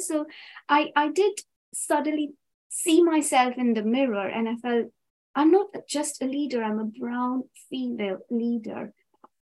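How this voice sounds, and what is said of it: British accent. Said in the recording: “I come from the UK. I've been here more than half my life. Yes, I do have a different accent, which is probably not going to go.”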